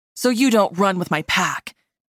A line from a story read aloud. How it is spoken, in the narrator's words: he growled dismissively